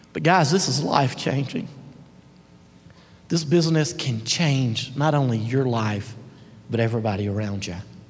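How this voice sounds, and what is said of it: Emotional, choked-up voice. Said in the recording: “I'm sorry to get emotional.”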